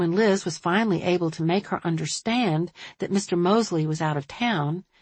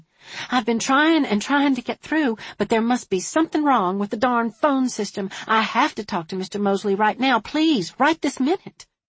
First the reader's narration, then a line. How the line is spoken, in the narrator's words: the woman just kept repeating frantically